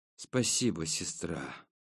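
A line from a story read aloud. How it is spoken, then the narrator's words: Mumbled. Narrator (Russian): пробормотал я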